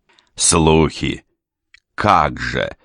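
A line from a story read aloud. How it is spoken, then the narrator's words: Triumphant chuckle. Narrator (Russian): торжествующе хохотнул Полуин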